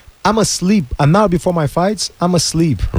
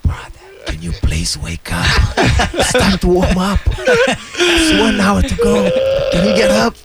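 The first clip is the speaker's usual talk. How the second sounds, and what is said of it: Whispering. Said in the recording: “whisper”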